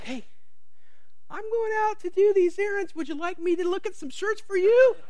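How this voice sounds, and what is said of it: Imitates another person's sweet voice. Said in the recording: “that's my best imitation. She's got such a sweet voice.”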